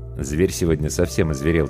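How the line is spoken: Quiet. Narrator (Russian): тихо сказал гример

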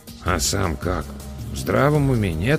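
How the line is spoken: Quiet mutter in ear. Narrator (Russian): тихонько пробурчал мне на ухо Эдвин

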